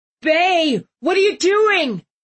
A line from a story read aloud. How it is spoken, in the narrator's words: Marcus screamed